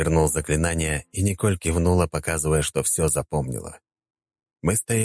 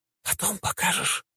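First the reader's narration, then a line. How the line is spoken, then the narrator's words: Whisper. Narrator (Russian): прошептала Николь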